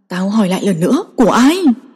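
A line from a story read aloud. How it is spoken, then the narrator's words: Raised voice. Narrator (Vietnamese): Diệp Lộ cao giọng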